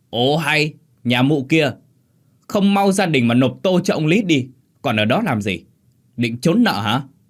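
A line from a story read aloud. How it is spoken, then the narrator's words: Loud bellowing shout. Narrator (Vietnamese): tiếng thằng Dần, tay sai đắc lực của lão Lý đã hét ông ổng vào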